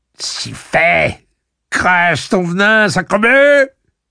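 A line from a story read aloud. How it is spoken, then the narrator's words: Shrill yelping. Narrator (French): fit-il en glapissant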